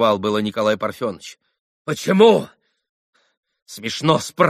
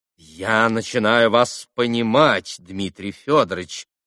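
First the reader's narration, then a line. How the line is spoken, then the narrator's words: Soft, sympathetic drawl. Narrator (Russian): мягко и даже как бы сострадательно протянул прокурор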